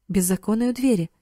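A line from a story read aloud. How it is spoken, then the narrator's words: Plain. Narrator (Russian): сказал Карл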